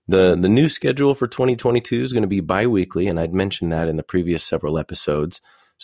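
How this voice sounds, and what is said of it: Congested voice from a cold. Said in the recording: “As you can probably hear, I've got a little bit of a cold”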